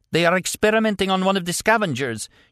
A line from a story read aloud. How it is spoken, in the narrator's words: she cried